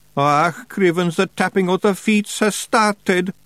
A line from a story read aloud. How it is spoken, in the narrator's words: moaned Daft Woolly